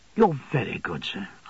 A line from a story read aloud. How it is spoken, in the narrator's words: I murmured